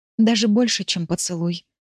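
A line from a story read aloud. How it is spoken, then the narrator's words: Whisper. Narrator (Russian): прошептала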